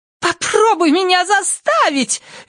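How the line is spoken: Shrill shout. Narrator (Russian): визгливо крикнула

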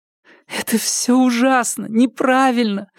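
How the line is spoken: Crying through tears. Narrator (Russian): Она плакала сквозь слезы

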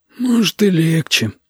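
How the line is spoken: Glum agreement. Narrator (Russian): уныло согласился Витя

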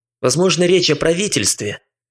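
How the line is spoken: Sudden angry question. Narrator (Russian): неожиданно зло спросил Шнайдер

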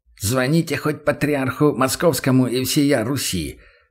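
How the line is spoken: General speaking through teeth. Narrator (Russian): процедил сквозь зубы генерал

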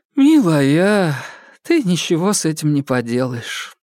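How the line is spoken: Sigh. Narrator (Russian): вздохнула Жигалёва, ее глаза повлажнели

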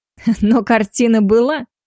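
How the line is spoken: Young woman giggling. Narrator (Russian): хихикнула девушка

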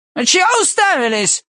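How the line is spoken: Bark. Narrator (Russian): рявкнул он

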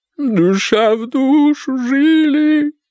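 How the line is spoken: Whimpering. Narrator (Russian): подскуливала Эдит Назаровна

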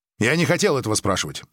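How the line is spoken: Sharp. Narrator (Russian): резко сказал Григ

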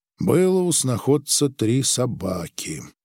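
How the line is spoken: Gloomy. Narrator (Russian): мрачно сказал Грик

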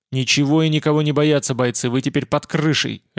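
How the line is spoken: Barking. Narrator (Russian): рявкнул я

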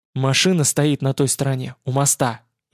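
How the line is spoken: Fervent whisper, boy. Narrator (Russian): жарко зашептал мальчишка

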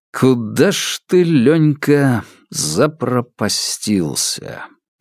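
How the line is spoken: Drawling man. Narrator (Russian): протянул он

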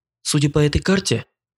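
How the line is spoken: Soft whistle, informing. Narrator (Russian): негромко присвистнула и сообщила

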